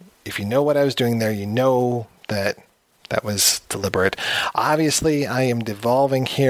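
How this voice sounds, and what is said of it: Usual voice. Nothing is said of it.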